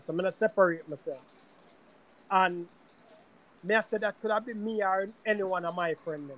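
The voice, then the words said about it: Light Jamaican accent. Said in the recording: “me a Jamaican ... until I open my mouth. And if my accent not that thick, if I'm not emotional, then my accent might not really tick”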